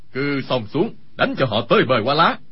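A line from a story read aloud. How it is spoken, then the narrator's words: Loud shout. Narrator (Vietnamese): Khâu Sử Cơ quát lớn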